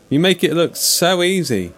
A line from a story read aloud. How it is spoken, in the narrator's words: Nathan said, only now realising he was shouting, his voice growing hoarse